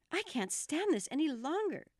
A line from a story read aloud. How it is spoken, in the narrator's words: cried